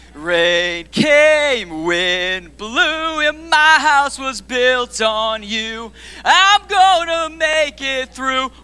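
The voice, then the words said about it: Sings imitating another singer's voice. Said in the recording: “I do my best Shania Twain impression.”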